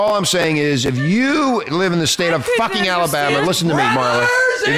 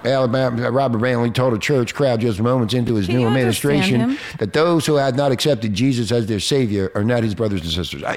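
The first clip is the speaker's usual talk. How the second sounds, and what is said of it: Weak fake Southern drawl, slurry. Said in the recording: “Where's this southern drawl? ... You're talking too fast. ... They talk real slow. ... You sound intoxicated rather than a southern drawl.”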